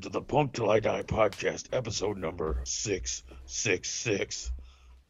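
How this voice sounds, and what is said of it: Super deep gravelly scary voice. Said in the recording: “That's my scary voice ... it got super deep, quite apart from the regular voice ... It's making it a little gravelly”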